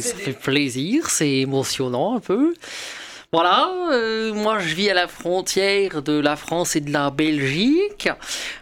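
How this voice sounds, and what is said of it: Mixed French, Belgian, Flemish put-on accent. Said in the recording (French): “je souffre un peu d'un problème d'accent... je sais pas même décider entre l'accent français, l'accent belge ou l'accent des Flandres... une petite amie québécoise qui a des influences euh, un peu trop marquées... on note effectivement un accent sans arriver trop à le déterminer... j'aurais même rajouté un petit peu de suisse”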